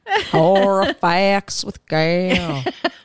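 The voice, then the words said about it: Put-on twangy accent. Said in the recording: “Maybe I do a twang.”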